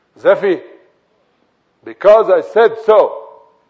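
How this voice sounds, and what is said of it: Angry voice. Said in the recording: “in an angry voice”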